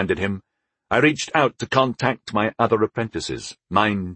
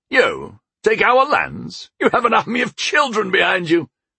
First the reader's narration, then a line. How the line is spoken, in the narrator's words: he scoffed